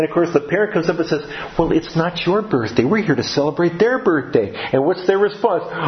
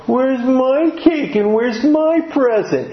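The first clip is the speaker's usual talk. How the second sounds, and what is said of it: Whiny little child's voice. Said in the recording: “it in that whiny little voice,”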